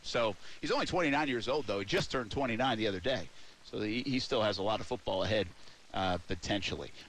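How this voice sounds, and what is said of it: Rhode Island accent. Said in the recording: “the Rhode Island accent”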